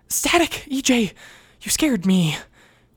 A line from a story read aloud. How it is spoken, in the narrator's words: Wes breathed